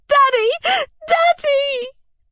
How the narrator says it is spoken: I cried, imploring him

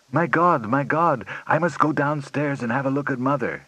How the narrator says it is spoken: exclaimed

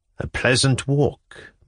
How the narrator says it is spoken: muttered Monsieur M

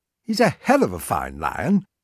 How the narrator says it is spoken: Wilson said cheerfully

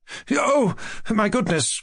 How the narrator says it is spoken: cried Mushkin, overcome with confusion and growing more and more hurried and eager

